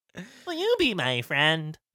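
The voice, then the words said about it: Chucky-style creepy doll character voice. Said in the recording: “could do a good Chucky voice”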